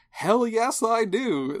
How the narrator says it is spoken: someone in the audience yelled out

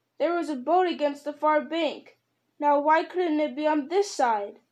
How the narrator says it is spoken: Bilbo cried

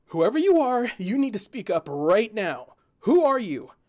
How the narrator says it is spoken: He was speaking in the most commanding voice he could muster in the circumstances

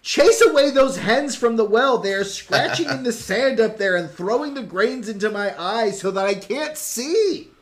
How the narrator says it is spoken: he cried

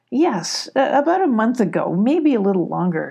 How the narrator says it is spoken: sighed Jake, caught in a lie

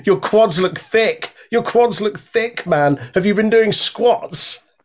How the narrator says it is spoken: Kofi and his banter from the pod screams at Randy saying

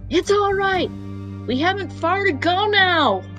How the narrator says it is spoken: Chi-Chi shouted

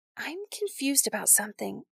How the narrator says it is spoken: Nix whispered

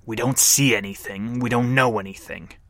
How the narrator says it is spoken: Merkel grumbled gruffly

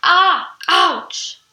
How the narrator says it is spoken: roared

